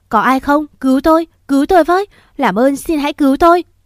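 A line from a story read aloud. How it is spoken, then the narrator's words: Loud desperate screaming. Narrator (Vietnamese): mồm gào lên inh ỏi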